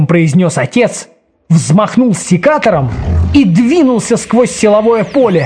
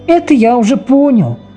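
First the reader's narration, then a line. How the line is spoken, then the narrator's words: Son sighing. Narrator (Russian): вздохнул сын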